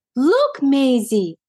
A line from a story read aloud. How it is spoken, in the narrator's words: exclaimed Daisy